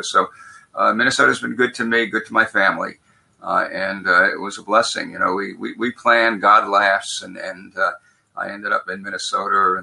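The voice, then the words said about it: Brooklyn accent. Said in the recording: “I still have a Brooklyn accent”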